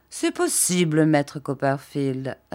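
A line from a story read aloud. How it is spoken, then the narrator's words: Plain. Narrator (French): répondit-il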